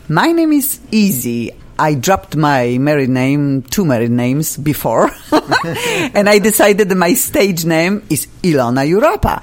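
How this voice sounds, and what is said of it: European accent. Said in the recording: “I have an accent, I came from Europe”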